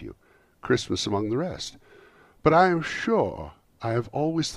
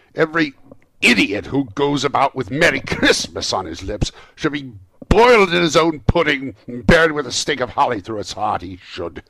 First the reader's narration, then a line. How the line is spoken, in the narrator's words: said Scrooge indignantly